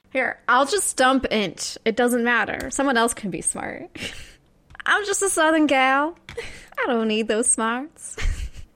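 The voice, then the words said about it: Good put-on Southern accent. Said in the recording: “You do a good Southern accent.”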